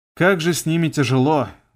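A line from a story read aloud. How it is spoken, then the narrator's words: Sighing. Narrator (Russian): вздохнул я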